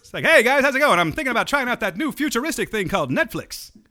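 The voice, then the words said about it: Old-time accent impression. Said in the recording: “She talks in an old-time accent.”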